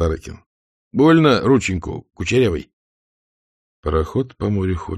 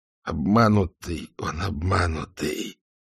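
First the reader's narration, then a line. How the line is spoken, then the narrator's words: Muffled pained moan. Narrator (Russian): глухо простонал Шелехис, потому что кровь из локтя хлестала безостановочно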